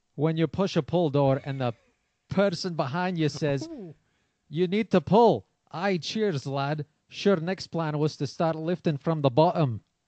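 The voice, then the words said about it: Put-on Scottish accent. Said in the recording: “I know zero about Scottish people. ... I like that accent. ... Was good ... That was really good.”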